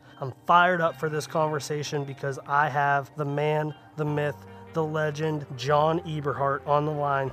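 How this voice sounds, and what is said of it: Sick, rough-sounding voice. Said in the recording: “I am fighting COVID-19 ... It's hit me pretty hard, so my voice is a little bit messed up”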